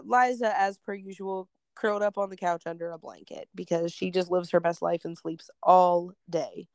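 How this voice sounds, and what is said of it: Hoarse, stuffy congested voice. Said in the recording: “some sinusy stuff. I'm sure everybody can hear it. ... My voice is a little hoarse and I'm a little stuffy”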